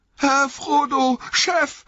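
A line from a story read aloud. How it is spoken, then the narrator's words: Trembling cry. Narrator (German): rief Sam bebend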